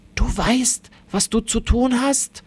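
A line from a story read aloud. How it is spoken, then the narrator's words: Old man whispering. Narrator (German): flüstert der Großvater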